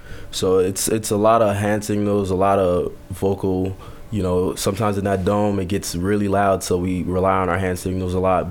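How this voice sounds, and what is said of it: Hoarse, strained voice. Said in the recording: “As you can hear my voice, I lost my voice screaming on the field.”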